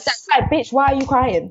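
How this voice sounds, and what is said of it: Put-on American accent. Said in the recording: “Your American not accent.”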